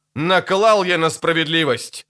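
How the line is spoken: Barked. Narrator (Russian): рявкнул Ипат

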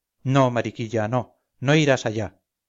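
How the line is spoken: Plain. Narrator (Spanish): dijo Montoria

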